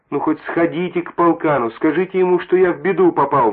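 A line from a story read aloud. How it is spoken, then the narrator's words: Pleading little rooster. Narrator (Russian): взмолился петушок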